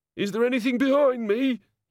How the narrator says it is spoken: he quavered

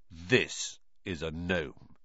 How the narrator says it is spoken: said grimly

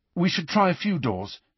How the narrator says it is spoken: he said hastily

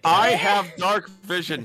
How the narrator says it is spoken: she yells at you

